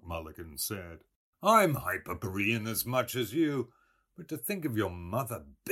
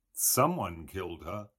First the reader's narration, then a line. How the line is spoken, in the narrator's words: Stephen said gloomily